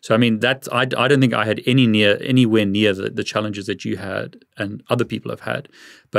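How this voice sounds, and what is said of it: South African accent. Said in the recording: “I'm from South Africa. I live in the UK. My accent is already can be a problem sometimes, even here.”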